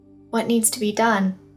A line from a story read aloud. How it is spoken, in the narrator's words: Esclerota sighed